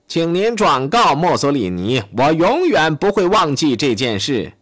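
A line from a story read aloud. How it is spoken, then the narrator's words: Ecstatic shout. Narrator (Chinese): 希特勒欣喜若狂，他喊道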